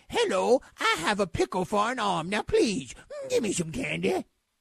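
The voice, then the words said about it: Adam Sandler impression. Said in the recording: “here's Adam Sandler ... That was Sandler ... That's a really good impression of me”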